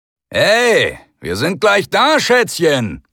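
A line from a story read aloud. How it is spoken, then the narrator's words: Roar. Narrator (German): brüllte er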